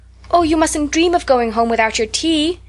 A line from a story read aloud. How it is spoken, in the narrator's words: cried Anne in distress